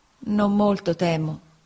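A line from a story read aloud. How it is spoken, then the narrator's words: Plain. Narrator (Italian): rispose mia madre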